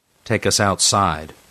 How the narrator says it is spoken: Franks said impatiently

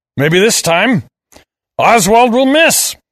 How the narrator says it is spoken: I roared

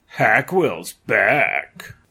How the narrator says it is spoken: in a horror film accent

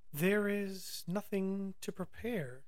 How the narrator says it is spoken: said sadly

